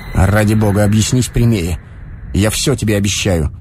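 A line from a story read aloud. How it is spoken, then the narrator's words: Dry, suppressed irritation. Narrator (Russian): Стараясь скрыть непонятное глухое раздражение, он сказал сухо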